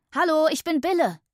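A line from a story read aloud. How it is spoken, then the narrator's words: Joyful call. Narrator (German): rief freudig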